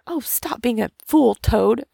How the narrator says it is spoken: cried the mole despairingly

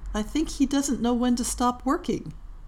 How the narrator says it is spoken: she said softly

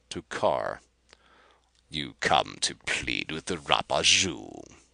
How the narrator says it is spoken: he sneered, his coast tinged with an outlandish accent

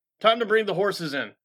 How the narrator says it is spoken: a man called out

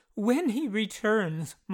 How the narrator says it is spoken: Marsden gasped

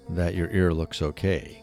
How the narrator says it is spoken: Kirby replied

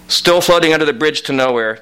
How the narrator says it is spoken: Timmy Keegan yelled again

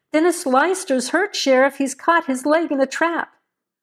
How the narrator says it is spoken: Maynard Nash called out

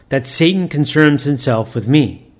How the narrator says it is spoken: exclaimed the astounded bookbinder

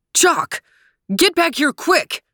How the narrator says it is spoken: barked Trooper

